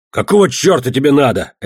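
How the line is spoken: Barking. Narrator (Russian): рявкнул я

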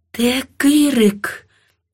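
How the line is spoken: Quiet, menacing question. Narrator (Ukrainian): тихо і страшно спитала я

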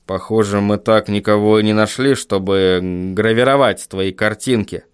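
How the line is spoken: Muttered. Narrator (Russian): пробормотал Вильям

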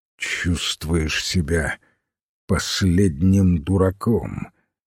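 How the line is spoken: Slow, deliberate. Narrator (Russian): медленно выговорил философ

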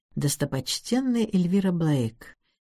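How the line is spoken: Quiet mutter to himself. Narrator (Russian): тихо сказал он себе под нос

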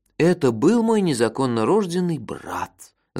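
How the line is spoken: Sinister whisper. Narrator (Russian): зловещим шепотом сообщил я

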